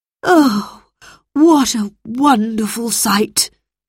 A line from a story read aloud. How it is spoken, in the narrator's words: sighed Mr